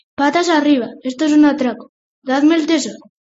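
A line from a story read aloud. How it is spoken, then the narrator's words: Shout. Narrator (Spanish): Horse gritó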